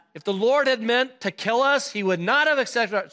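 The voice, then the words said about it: Put-on Jewish accent. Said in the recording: “use your best Jewish accent”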